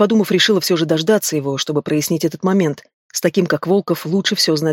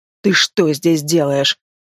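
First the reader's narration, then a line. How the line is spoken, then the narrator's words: Growling. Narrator (Russian): рыкнул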